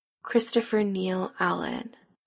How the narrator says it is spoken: Adam murmurs, voice shaky and uncertain

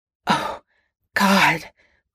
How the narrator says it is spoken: Potter choked out, going stiff as a board

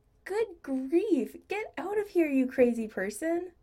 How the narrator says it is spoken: laughed

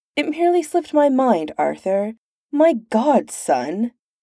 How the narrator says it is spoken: Pendragon says, sighing

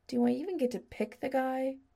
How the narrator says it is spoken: Adam asked in a small voice

